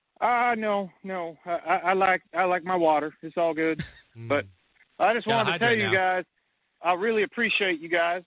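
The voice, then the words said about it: Local Coatesville regional accent. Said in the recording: “a classic Coatesville accent, if I ever heard one”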